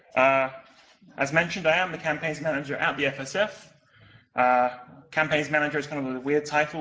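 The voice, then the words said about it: Unfamiliar accent, quick speech. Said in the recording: “I talk kind of quickly and in an accent that may not be familiar to all of you”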